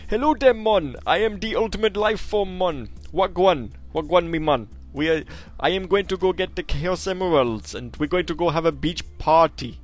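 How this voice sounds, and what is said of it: Put-on Jamaican accent. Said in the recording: “Shadow having a Jamaican accent.”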